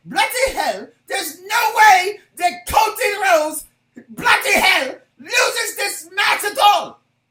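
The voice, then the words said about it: Poor put-on English accent. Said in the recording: “everybody says I have a crappy English accent ... That was really bad. That was really bad”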